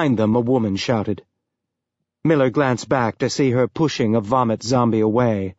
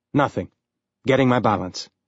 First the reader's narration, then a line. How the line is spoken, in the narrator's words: Miller said